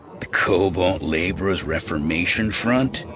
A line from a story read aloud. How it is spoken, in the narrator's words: a second voice sneered